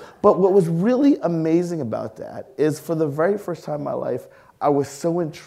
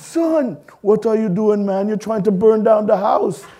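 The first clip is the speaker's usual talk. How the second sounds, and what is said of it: Upset Trinidadian accent. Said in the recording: “He didn't have a Trinidadian accent much until he was upset.”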